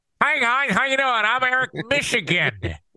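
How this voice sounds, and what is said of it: Nasal put-on Michigan accent. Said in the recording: “the Michigan accent ... I'm talking through my nose”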